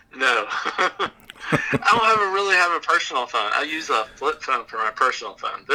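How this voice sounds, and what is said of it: Southern American accent. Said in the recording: “do you have more of a Southern accent? I don't remember you having this Southern accent.”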